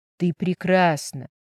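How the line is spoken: Tender whisper. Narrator (Russian): прошептал он

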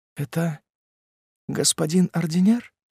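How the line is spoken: Timid, shy. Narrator (Russian): Робко и застенчиво она сказала

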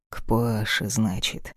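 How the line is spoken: Deceptively calm. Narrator (Russian): обманчиво спокойно повторил

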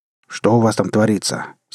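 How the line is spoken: Angry interruption over radio. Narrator (Russian): сердито встрял на мою волну Роб

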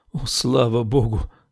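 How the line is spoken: Relieved exhale. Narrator (Russian): выдохнула она

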